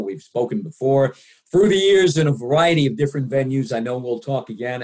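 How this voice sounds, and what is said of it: Polished radio announcer voice. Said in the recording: “I always call you the voice. You have that radio voice,”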